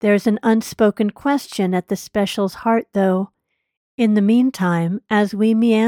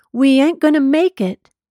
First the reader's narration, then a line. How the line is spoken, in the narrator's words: his shouted refrain